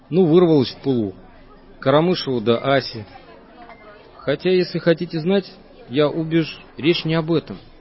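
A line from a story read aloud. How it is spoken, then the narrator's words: Plain. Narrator (Russian): сказал Вайсберг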